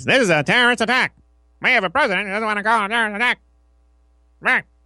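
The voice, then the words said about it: Imitates another person's voice. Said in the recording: “My impression there was Tony Clifton”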